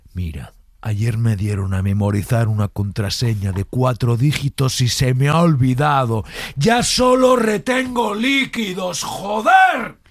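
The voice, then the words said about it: Whisper rising to angry shout. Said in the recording (Spanish): “la transición del bajo al alto, del susurrado ... al enfadado”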